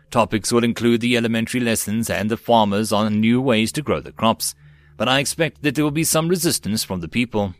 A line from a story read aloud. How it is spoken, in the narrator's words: Shireen gave a sigh